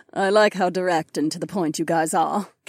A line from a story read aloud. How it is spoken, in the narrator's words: Kat chuckled